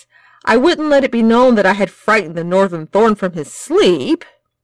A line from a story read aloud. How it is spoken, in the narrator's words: Ian snarled